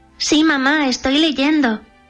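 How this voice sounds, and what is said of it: Imitates a young girl's voice. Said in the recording (Spanish): “El jazmín respondió imitando la voz de la princesa.”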